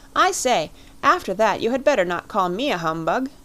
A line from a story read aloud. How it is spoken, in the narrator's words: cried Lord Lambeth